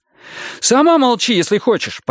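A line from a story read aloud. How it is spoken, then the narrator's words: Near shout. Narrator (Russian): почти закричал Адам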